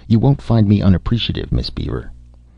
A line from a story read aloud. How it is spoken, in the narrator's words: Frank Wiley III said thickly